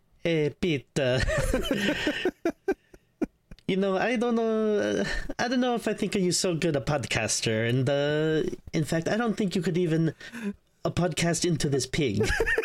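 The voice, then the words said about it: Russell Crowe's Italian accent impression. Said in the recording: “there's an Italian accent involved because we're dealing with the Pope ... Russell Crowe's getting an Italian accent”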